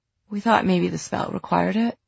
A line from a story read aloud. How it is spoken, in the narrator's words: Livy said and yawned